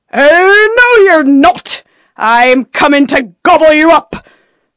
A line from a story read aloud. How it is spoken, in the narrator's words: roared the troll